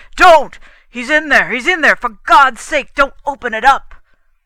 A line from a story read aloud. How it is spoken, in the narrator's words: His arms jerked up, and he cried